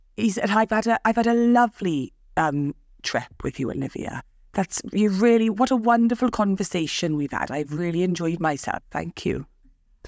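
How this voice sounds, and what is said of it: Attempted Welsh-sounding accent. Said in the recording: “I don't know if I can do an accent ... I feel like I sound like Postman Pat. He's Welsh, isn't he?”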